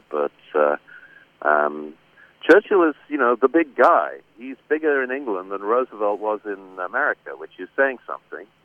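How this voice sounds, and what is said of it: British accent. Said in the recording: “as you may tell from my accent, I'm a Brit by birth”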